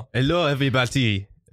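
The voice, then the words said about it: French accent. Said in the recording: “he's French ... make fun of my accent ... I'm going to adapt his accent”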